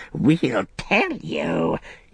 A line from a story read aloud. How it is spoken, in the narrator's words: he croaked